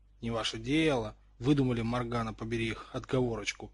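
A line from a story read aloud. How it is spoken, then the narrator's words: Boy muttering. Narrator (Russian): бурчал рыжий мальчик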